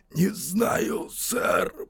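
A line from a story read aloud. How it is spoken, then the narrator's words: Hoarse wheeze. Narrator (Russian): прохрипел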